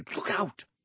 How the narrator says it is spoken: Hermione whispered

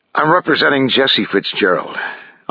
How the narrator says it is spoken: I sigh

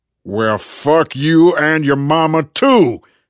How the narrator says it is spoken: roared

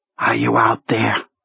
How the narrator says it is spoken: whispered

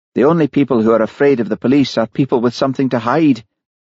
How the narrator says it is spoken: Sheila said harshly

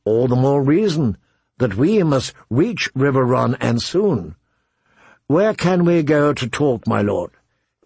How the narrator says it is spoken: Calmly she said

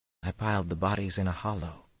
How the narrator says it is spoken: he said in a flat voice

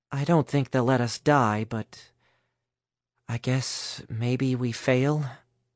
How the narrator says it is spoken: Alice said uncertainly

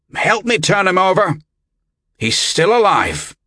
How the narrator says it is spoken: barked

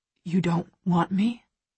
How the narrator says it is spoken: He whispers

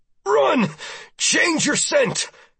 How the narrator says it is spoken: I gasped once and said

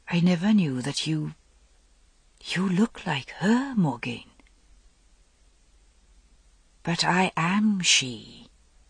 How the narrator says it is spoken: He whispered

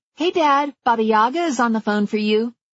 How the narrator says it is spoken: Then she called brightly

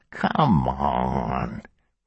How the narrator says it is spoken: Ballard wheezed

